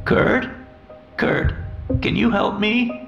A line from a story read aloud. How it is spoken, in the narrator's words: Her voice wavered